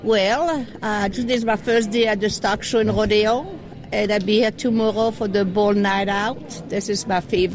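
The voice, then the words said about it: Strong French accent in English. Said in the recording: “I am detecting a rather large accent ... I'm detecting some bit of French dialect ... I am French”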